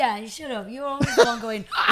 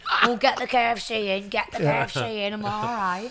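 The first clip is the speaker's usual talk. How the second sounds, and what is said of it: Imitates another person's voice. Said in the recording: “That's an uncanny impersonation”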